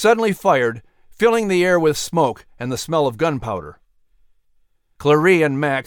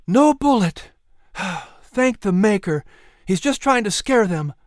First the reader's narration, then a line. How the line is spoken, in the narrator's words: Clarie sighed with relief